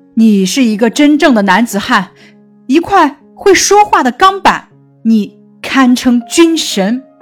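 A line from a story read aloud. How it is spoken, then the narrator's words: Stunned loud shout. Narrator (Chinese): 沃克医生惊呆了，大声嚷道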